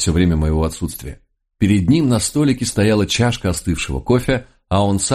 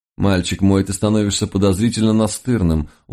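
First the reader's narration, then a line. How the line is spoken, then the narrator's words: Glum. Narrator (Russian): уныло поморщился Лис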